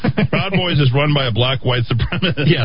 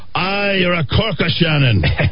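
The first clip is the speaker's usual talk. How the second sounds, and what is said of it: Put-on Irish accent. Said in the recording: “I'm using my best accent ... You're not Irish”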